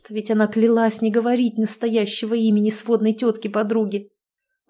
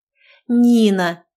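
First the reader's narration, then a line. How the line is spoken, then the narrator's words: Through teeth, letter by letter. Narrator (Russian): процедила по буквам Маша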